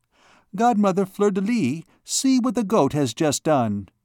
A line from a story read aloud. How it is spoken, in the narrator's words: Bérengère suddenly exclaimed, clasping her hands in admiration